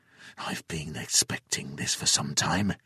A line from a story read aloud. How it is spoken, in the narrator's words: he whispered